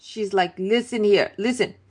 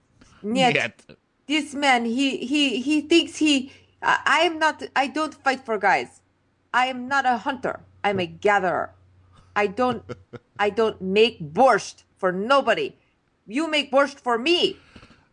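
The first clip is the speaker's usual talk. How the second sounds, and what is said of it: Badly done Russian accent. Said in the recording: “I'm going to really butcher this accent.”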